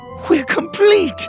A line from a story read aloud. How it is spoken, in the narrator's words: Penelope cried